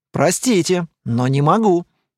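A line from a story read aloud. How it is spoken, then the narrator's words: Calm. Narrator (Russian): спокойно сказал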